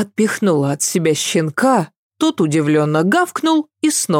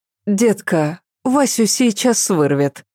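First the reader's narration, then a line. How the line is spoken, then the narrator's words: Very gentle. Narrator (Russian): Заметила Ася очень мягко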